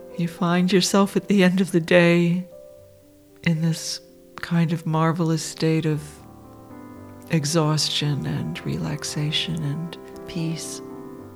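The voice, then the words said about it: Sleepy, relaxed voice. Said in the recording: “I sound a little sleepy”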